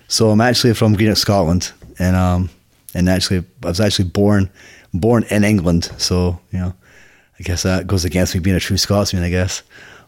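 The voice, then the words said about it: Mixed Scottish and American accent. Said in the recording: “you, like myself, have got a mixed accent”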